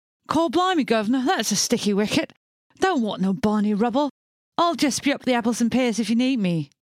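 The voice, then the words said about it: Put-on Cockney accent. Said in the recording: “I'll make you do a whole episode in a Cockney accent”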